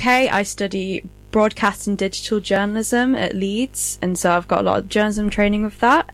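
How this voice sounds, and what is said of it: British accent. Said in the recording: “I'm from the UK, if you can't tell by the accent.”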